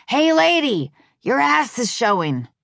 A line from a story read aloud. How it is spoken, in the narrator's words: this woman in a truck yelled out to me